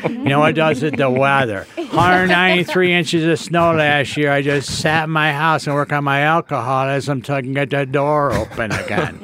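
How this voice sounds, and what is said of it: Defeated-sounding upstate New York accent. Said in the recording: “let me do the accent for you. The defeated tone, upstate New York.”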